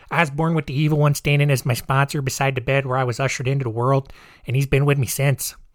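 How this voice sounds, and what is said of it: Bad put-on Chicago accent. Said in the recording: “that was a really bad Chicago accent”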